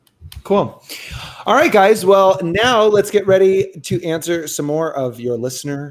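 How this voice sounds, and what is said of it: Usual voice. Nothing is said of it.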